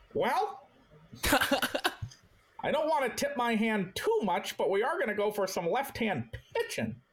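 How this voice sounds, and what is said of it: Impression like a 1950s stockbroker. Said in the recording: “doing my Dave Dombrowski impression ... that's like a 1950s stockbroker.”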